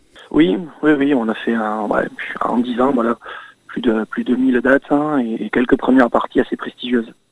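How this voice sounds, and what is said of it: Southern French Aveyron accent. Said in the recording (French): “Vous êtes du sud, hein, de l'Aveyron exactement... Aveyronais... on le sent bien à l'accent”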